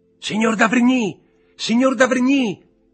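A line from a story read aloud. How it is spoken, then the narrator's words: Choked shout. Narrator (Italian): gridò Valentin con voce soffocata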